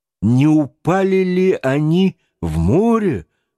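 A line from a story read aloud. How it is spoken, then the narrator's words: Plain. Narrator (Russian): спросил Паганель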